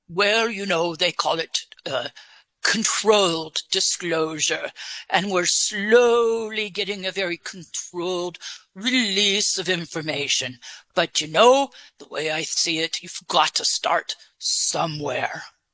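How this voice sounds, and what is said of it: Put-on English accent. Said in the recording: “Where did you get your English accent? ... I actually created it for you. ... you're doing a good job with it.”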